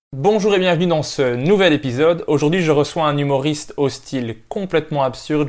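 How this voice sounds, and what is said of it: Melodious Belgian French accent. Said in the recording (French): “nouvel accent à entendre, harmonieux, euh, mélodieux ... un Belge”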